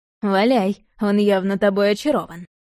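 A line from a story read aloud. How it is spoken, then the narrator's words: Snorting. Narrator (Russian): хмыкнул Яблонев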